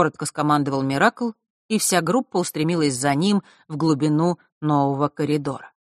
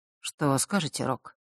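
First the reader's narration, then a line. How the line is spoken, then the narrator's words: Quiet. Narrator (Russian): тихо произнес Миракл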